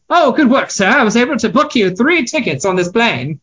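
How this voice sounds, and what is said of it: Put-on British accent. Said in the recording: “a man doing a British accent”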